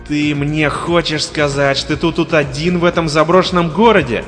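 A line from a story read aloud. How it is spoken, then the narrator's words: Yelling. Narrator (Russian): орал незнакомец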